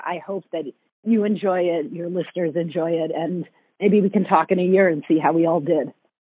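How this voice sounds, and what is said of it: Strained, failing voice. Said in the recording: “my voice is like dying here”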